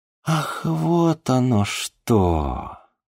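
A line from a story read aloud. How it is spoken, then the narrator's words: Drawn-out. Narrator (Russian): протянула Снежана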